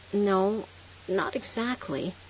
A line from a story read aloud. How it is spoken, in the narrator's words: I stammered